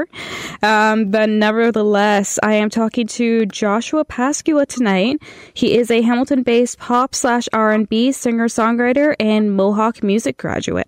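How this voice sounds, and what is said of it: Nasal, congested voice. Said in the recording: “my voice sounds a little nasally, a little bit congested. I am getting over a cold”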